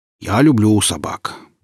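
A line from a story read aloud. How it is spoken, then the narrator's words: Deep bass voice. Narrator (Russian): пробасил Семен за спиной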